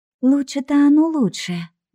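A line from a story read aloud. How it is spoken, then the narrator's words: Sigh. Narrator (Russian): вздохнула Женька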